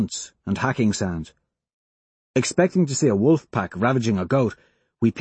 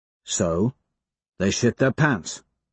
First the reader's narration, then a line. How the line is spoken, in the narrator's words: I grunt